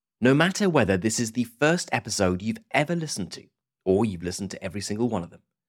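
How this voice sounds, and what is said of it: British accent. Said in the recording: “As you might be able to tell from my accent, I'm from the UK. I'm British.”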